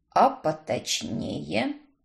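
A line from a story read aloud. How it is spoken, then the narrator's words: Dry. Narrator (Russian): сухо произнес Уильям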